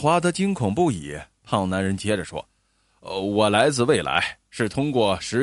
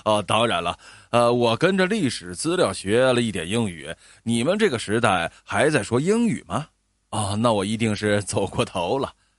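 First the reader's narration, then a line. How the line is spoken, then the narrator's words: Fat man, laughing. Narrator (Chinese): 那个胖男人大笑起来，说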